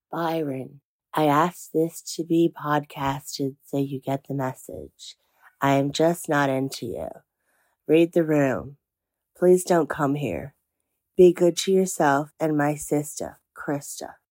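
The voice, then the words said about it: Low, gravelly California girl accent. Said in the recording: “my voice dropped a little bit and I got a little bit gravelly and I thought I could do a bit of a California girl accent ... day two of COVID, giving it a crack”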